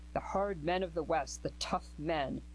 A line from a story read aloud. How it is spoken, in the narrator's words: he sneered at himself